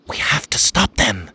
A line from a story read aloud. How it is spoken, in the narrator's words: Achara whispered